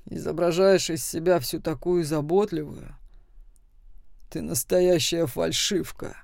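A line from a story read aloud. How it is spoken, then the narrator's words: Sudden very rude. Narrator (Russian): внезапно очень грубо сказал Макс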